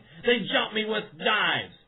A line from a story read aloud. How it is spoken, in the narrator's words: bleeding profusely and shouting